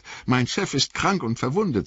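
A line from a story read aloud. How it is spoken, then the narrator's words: Angry. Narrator (German): sagte Sam wütend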